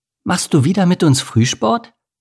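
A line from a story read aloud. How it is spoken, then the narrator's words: Cheerful question. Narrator (German): fragte Amelie fröhlich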